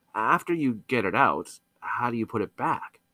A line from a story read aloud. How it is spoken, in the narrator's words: asked quietly